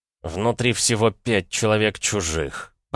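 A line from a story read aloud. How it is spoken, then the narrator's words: Growl. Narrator (Russian): прорычал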